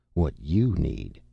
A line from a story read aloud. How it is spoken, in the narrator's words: said firmly